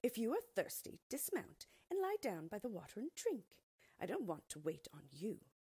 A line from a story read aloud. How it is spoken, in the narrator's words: the maid replied curtly